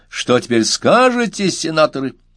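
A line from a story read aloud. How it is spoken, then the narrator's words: Loud laughing shout. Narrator (Russian): Салтыков захохотал еще громче и закричал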